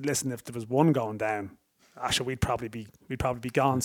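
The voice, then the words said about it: Imitated Galway Irish accent. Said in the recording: “that's great a, Galway accent”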